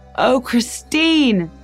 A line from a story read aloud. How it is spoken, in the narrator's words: Dennis Muldoney shouted